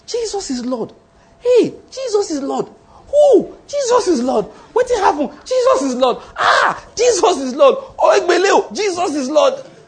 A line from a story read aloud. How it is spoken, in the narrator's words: exclaiming